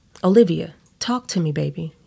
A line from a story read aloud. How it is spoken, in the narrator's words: he shouts